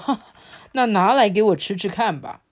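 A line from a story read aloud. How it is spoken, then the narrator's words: Hearty laughter. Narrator (Chinese): 皇帝忍不住就大笑说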